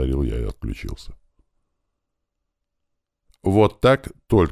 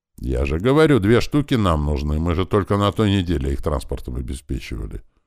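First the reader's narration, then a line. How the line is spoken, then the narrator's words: Plain. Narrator (Russian): ответил мне Кирилл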